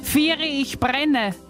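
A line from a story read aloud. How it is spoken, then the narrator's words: Mock panicked scream. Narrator (German): schrie in gespielter Panik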